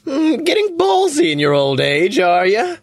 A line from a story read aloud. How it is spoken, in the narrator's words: Phoebe laughs maniacally